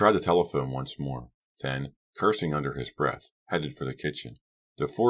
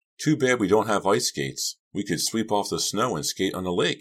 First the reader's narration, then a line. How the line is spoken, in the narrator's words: I cried, a bit overwhelmed by the unbelievable beauty of the scene